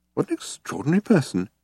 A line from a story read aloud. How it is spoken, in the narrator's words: he muttered to himself